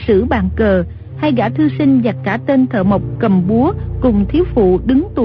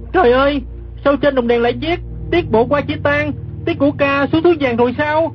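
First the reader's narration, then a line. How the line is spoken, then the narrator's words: Startled cry. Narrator (Vietnamese): Gã kép hát đang nằm dưới đất, giật mình la lên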